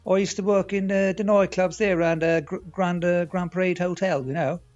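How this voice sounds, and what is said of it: Strong Carrigaline accent. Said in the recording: “What a strong accent ... With my Carrigaline accent ... What a strong Carrigaline accent he has ... I can barely understand him most of the time.”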